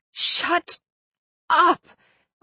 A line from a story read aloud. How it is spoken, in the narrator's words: I wheezed through clenched teeth, still struggling to breathe